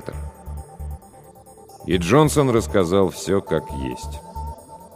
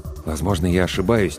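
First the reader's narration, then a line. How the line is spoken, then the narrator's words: Quiet. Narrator (Russian): тихо сказал доктор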